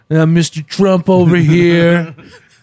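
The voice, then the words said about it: Imitates another person's voice. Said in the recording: “You do a great impression of him.”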